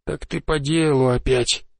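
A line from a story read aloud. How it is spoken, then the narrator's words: Grumbled. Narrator (Russian): пробурчал он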